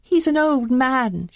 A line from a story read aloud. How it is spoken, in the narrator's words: she begged